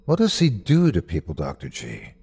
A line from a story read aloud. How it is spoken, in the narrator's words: asked softly